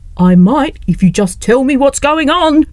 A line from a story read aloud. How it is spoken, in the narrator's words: cried Lessie